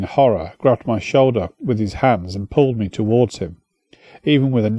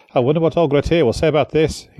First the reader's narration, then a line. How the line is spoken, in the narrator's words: he said